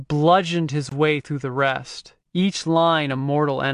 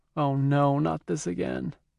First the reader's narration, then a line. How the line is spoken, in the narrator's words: someone mutter